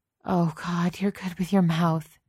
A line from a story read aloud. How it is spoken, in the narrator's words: gasped